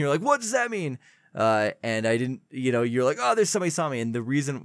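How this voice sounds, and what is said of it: Usual voice. Nothing is said of it.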